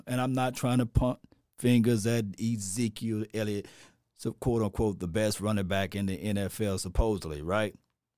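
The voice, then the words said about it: Sarcastic tone. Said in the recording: “I'm being sarcastic, you know, I'm sarcastically speaking”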